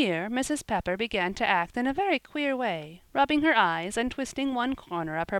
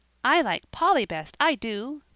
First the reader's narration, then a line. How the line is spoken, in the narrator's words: cried little Dick